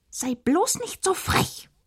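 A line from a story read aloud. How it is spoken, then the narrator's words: Offended queen hissing. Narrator (German): fauchte die Königin beleidigt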